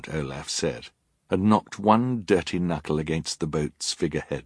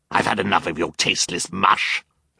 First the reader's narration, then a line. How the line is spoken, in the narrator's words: Olaf snarled